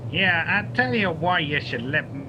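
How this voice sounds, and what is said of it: Put-on accent in character. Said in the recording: “You're still doing that accent. You're making fun of me, huh?”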